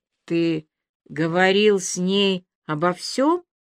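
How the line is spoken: Forced out. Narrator (Russian): выдавила из себя Аля

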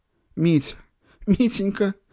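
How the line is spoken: Sudden sob. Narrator (Russian): вдруг всхлипнула Ольга Васильевна

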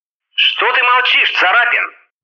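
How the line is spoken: Loud bark near ear. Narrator (Russian): гаркнули за ухом

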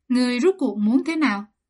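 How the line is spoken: Restrained fury. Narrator (Vietnamese): Trong lòng A Mạch kỳ thật đã tức giận đến cực điểm, nhưng vẫn cố gắng kiềm chế lửa giận hỏi Thường Ngọc Thanh

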